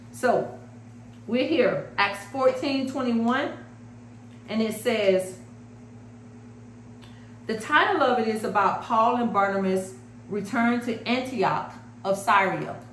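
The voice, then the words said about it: Strong Florida American accent. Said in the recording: “I am a Florida girl with a serious accent.”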